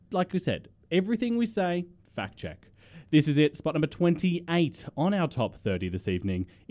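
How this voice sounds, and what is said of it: Australian accent. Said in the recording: “It's our Aussie accent”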